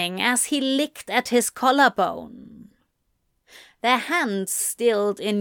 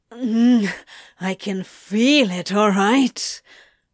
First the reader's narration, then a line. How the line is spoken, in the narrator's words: Crowley grunted